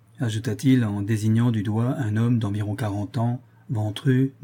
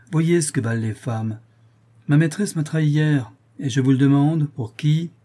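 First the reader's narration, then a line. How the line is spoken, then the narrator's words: Young man exclaiming. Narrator (French): s'écria un jeune fou de 20 ans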